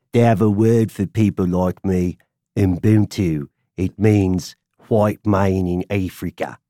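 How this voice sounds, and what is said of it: Leonardo DiCaprio's South African accent. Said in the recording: “My favorite Afrikaner or South African accent is Leonardo DiCaprio ... the accent is so terrible that I did a pretty good job of what Leonardo DiCaprio was doing”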